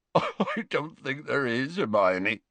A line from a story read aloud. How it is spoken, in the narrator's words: choked Hagrid, attempting to stem the flood of his tears